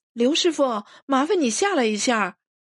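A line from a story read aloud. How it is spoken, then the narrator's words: Calling upward. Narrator (Chinese): 朝上喊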